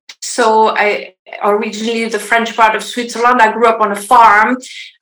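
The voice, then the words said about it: Swiss French accent. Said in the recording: “I am from Switzerland originally, if you wonder about my accent.”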